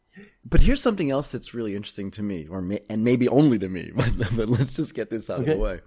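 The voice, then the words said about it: Strong American accent. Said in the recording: “I hear the strong American accent.”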